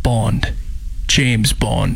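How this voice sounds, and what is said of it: Put-on sexy British accent. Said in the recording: “you're going to give us your best sexy British read ... try to do your accent”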